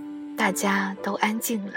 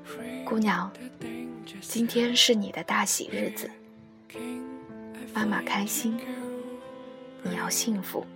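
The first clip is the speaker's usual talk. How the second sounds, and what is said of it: Very gentle, tender voice. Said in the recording (Chinese): “用平日里最温柔的声音说”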